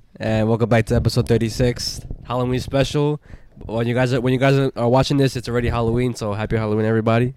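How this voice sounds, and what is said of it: Sick, congested stuffy-nosed voice. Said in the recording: “I sound a little sick,... I have like a little cold and shit. I have a fucking stuffed nose.”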